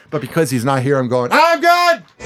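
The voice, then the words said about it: Yelling loudly. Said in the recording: “that's why I'm yelling.”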